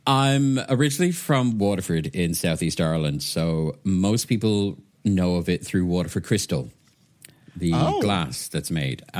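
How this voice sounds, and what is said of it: Soft Irish accent mixed with British. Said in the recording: “my accent is kind of a weird hybrid between UK and soft Irish”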